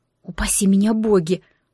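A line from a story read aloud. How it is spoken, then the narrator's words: Blurted breathless exclamation. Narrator (Russian): выдохнула раньше, чем подумала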